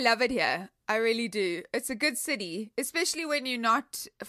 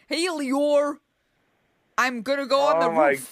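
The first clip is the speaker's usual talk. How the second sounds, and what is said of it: Exaggerated put-on Chicago accent. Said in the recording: “He's a Chicagoan ... He's got the crazy accent”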